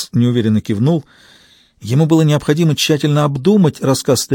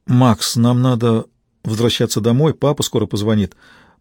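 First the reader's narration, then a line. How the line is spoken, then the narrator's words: Muttering. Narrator (Russian): пробормотала Алисия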